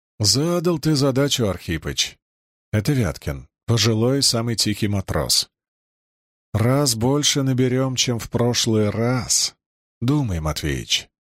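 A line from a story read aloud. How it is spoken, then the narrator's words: Gentle. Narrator (Russian): мягко сказал Чернышов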